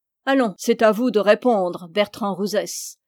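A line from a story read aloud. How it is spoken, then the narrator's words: Sneering young man. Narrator (French): ricana le jeune homme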